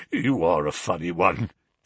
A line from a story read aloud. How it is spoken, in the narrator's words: chuckled the inspector